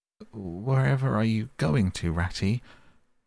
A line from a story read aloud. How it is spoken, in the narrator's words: cried the tearful Mole, looking up in alarm